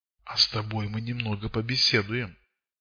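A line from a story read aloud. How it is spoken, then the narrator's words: Whisper. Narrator (Russian): прошептал он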